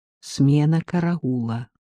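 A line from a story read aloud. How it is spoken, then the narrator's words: Whispered. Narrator (Russian): прошептал Шевцов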